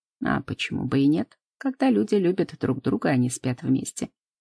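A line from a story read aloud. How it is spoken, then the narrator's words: Matter-of-fact tone. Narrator (Russian): будничным тоном отвечает Антон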